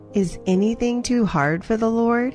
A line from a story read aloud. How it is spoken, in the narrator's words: He said